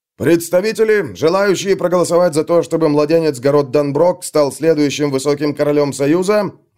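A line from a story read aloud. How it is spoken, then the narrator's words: Roaring. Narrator (Russian): взревел тот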